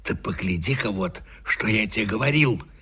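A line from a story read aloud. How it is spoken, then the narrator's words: Whisper. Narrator (Russian): сказал он шепотом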